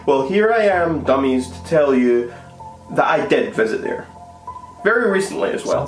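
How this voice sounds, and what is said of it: Scottish accent. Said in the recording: “He sounds Scottish”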